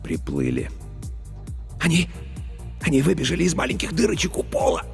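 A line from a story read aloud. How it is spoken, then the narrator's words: Passionate whisper. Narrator (Russian): Страстно зашептал Старлей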